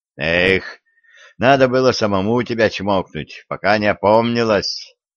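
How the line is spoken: Groaning. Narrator (Russian): простонал царский сплетник

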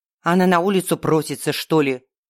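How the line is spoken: Grumbling female vampire. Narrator (Russian): проворчала вампирша

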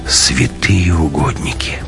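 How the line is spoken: Whisper. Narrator (Russian): прошептал Матвей

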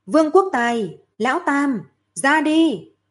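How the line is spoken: Loud call. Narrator (Vietnamese): Lâm Phàm lớn tiếng hô

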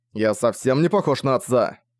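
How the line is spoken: Raised voice, angry. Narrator (Russian): повысил голос Зориан, сердито

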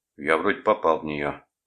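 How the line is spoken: Gloomy remark. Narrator (Russian): мрачно заметил третий полицейский

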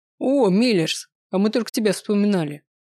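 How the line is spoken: Dragon snorting, amused. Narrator (Russian): хмыкнул песчаный дракон

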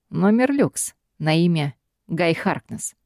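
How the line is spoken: Calm voice. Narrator (Russian): говорит Гай спокойным голосом

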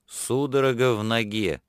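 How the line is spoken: Calm, strained through clenched teeth. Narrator (Russian): спокойно ответил он, с трудом процедив слова сквозь крепко стиснутые зубы

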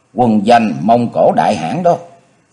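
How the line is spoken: Smiling. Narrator (Vietnamese): Xuân đại sư mỉm cười nói

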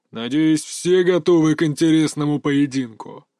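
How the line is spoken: Deep, faintly mocking voice. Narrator (Russian): произнес хозяин клуба глубоким голосом, в котором проскользнула насмешка

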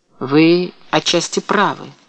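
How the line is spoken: Calm agreement. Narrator (Russian): спокойно согласился Карел

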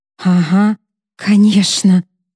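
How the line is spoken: Whisper. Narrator (Russian): прошептала Морган

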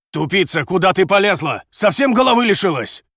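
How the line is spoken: Furious, worried yelling. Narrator (Russian): Яростно и в то же время обеспокоенно заорал он на демоницу

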